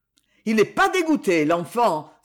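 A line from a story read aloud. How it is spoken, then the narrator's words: Exclaiming. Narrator (French): s'écria-t-on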